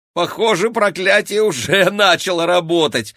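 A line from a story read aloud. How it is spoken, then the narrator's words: Exclaimed. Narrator (Russian): воскликнул Максим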